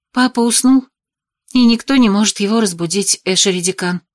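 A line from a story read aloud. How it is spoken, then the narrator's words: Even voice. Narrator (Russian): ответила я ровным голосом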